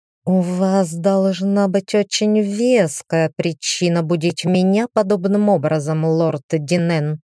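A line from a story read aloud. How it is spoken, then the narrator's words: Said through gritted teeth. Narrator (Russian): она процедила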